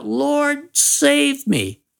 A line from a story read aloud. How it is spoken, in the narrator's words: he cried out